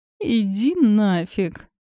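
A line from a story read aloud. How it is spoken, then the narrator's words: Moaning. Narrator (Russian): простонала я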